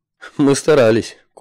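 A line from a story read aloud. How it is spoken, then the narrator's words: Short snort. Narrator (Russian): коротко хмыкнул тринадцатый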